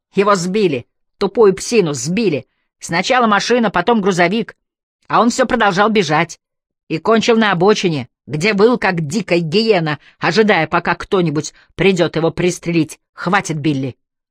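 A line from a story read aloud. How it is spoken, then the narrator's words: Barked. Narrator (Russian): рявкнул Олфилдер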